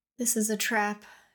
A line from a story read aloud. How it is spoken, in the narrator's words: Shale whispered, heart thundering in her chest